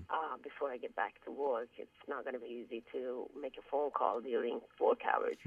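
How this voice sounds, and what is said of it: Sick, strained voice. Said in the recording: “Sorry about my voice. I'm sick”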